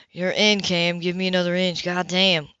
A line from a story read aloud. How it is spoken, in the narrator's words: Grunt